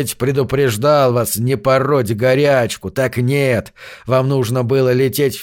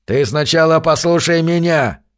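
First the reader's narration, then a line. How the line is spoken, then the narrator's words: Old man's growl. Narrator (Russian): прорычал старый Джонас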